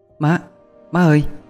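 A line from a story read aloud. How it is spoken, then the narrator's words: Softly calling. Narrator (Vietnamese): Khánh Tâm khẽ gọi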